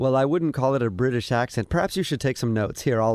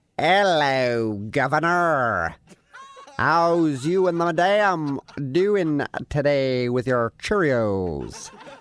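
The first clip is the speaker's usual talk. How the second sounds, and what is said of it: Put-on British accent. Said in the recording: “I'll do an accent for you ... British ... that's your British accent? ... That is the British accent.”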